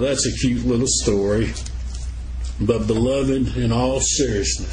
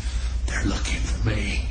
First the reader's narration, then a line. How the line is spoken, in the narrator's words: Still whispering, the young voice replied along with a little muffled giggle